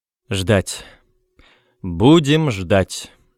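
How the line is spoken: Loud statement. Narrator (Russian): громко сказал директор

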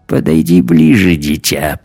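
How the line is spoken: Creaky voice. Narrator (Russian): проскрипел он

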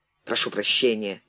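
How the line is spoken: Grumbled. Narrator (Russian): пробурчал

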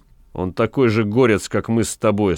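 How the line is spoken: Plain. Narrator (Russian): сказал господин ротмистр

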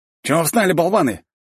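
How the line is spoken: Shouting. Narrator (Russian): крикнул опомнившись Федя

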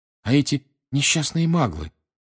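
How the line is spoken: Agitated. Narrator (Russian): взволнованно сказала Гермиона

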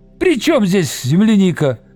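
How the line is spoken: Shouting. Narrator (Russian): закричал Виктор

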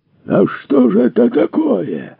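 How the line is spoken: Roaring farmer. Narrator (Russian): взревел фермер

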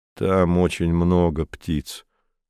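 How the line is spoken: Calm. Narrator (Russian): сказал спокойно Камил

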